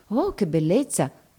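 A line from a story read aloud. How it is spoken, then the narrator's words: Murmured by many. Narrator (Italian): mormorano tutti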